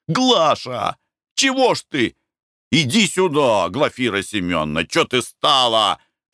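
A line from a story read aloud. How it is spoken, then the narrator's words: Shouting merchant. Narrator (Russian): кричал купец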